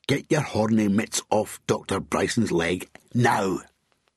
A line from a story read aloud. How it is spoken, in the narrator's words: Bob snarled